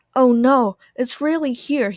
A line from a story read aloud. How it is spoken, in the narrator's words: he cried, a terrified expression on his face